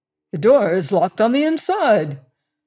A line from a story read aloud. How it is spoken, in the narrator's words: exclaimed Clovis